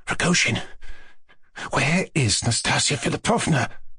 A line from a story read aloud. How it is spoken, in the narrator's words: Mushkin whispered suddenly, and he stood up trembling in every limb